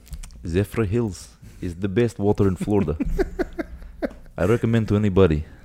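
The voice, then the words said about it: Put-on Russian accent. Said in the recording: “Do a Russian one real quick. ... Well, I said Russian. ... Impressions-wise.”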